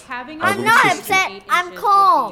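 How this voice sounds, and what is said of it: Child yelling angrily. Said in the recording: “You're yelling.”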